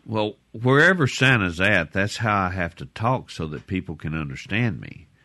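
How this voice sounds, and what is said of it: Santa voice with a Southern accent. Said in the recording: “it sounds like Santa kind of has a southern accent”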